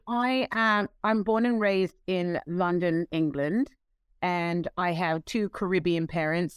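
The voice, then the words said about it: Non-American accent. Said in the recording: “obviously not in America from your accent”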